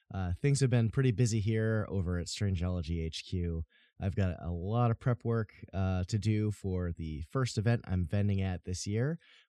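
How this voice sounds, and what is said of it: Slightly scratchy voice. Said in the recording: “My allergies are kicking in big time from all the pollen outside, so if my voice sounds a little scratchy, that's why.”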